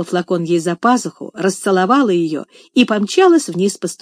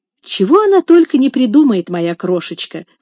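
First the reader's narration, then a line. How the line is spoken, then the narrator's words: Nanny's exclamation. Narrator (Russian): воскликнула няня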